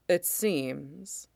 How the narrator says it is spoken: Mace says quietly

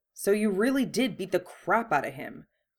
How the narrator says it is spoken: Ron growled

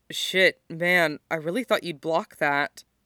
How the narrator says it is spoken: he says

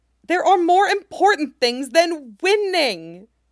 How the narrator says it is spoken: Nami screams back

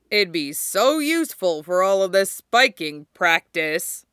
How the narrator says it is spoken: Ukai said loudly

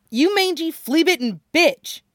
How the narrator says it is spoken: snaps

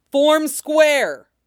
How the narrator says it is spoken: he roared

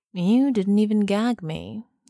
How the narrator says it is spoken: he said mournfully

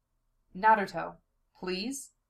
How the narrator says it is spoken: he asks, and isn't sure how on earth he keeps his voice steady

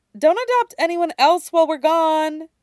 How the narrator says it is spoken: she adds cheerfully

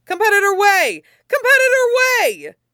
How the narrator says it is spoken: the press screams

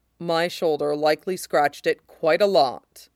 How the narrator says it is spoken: says, dryly

